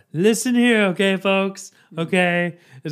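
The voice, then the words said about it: Gravelly, shouty Donald Trump impression. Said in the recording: “the person that does a good Trump is Trevor Noah ... adds some gravel to it ... And yelling a little bit more ... It's a different octave.”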